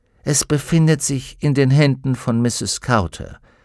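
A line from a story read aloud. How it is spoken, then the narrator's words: Plain. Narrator (German): sagte Fra Pavel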